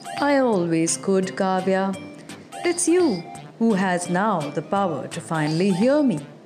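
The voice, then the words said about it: Gentle voice. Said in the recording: “in a gentle voice”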